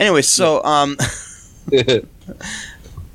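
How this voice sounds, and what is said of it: Usual voice. Nothing is said of it.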